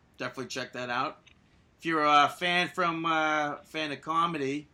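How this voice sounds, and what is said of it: Weak put-on Boston accent. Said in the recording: “I don't know if that was a good accent from Boston or not ... That's a Boston act. Nope.”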